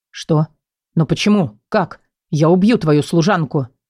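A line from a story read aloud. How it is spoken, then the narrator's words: Words mixed with growling. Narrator (Russian): Слова смешались с рычанием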